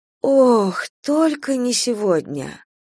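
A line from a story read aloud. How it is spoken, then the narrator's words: Drawn-out. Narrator (Russian): протянула Надежда Николаевна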